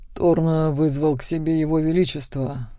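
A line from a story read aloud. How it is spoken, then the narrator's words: Muffled low voice. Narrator (Russian): глухо сказал Макс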